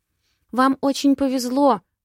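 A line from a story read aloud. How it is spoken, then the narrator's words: Shivering babble. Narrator (Russian): лепетала, ёжась от холода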